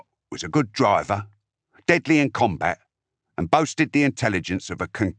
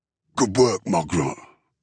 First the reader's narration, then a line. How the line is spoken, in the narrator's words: Uftek grunted